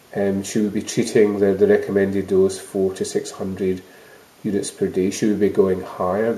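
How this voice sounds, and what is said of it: Scottish accent. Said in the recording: “I'm Scottish, as you know, one can tell by accent”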